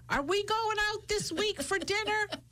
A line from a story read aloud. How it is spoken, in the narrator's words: screaming